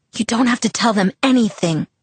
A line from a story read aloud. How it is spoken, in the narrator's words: I hissed